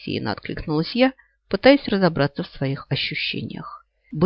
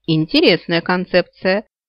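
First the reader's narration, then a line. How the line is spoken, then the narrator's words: Cheerful chuckle. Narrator (Russian): весело хмыкнула Свитти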